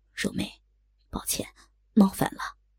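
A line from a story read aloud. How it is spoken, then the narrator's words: Soft, gentle. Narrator (Chinese): 杨青山柔声说道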